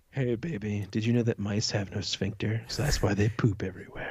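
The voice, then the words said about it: Put-on sexy voice. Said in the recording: “put on my sexy voice”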